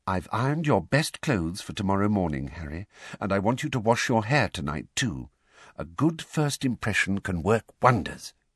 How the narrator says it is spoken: said quietly

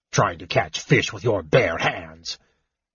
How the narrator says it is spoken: Flint grumbled in disgust

